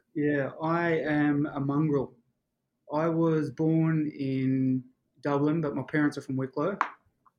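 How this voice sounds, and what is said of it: Australian accent. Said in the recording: “you have an Aussie accent”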